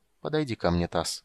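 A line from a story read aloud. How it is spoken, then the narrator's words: Soft, gentle. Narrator (Russian): мягко сказал маг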